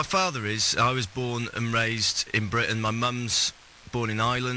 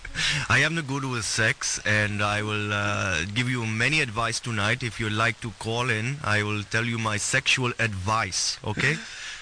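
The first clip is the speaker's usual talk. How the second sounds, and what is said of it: Put-on Indian accent. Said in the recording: “You do it with an Indian accent, then?”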